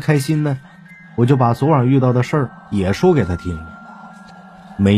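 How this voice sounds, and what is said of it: Usual voice. Nothing is said of it.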